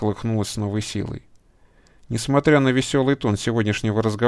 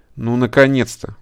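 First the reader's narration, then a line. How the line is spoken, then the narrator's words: Hefty woman exclaiming. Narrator (Russian): воскликнула тетка, габаритами схожая с бегемотихой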